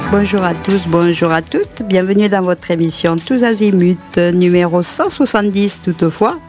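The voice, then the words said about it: Put-on Toulouse French accent. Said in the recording (French): “Pourquoi je prends cet accent toulousain?”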